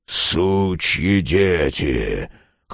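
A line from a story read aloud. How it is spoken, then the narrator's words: Hoarse drunken voice. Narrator (Russian): хриплый, совершенно пьяный голос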